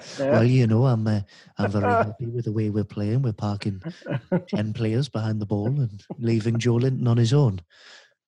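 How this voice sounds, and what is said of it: Imitates another person's voice. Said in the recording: “you do a very good Steve Bruce impression”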